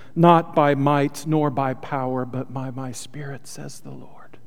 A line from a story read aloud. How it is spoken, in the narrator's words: The Spirit that was in Zechariah also whispers to us in our spirit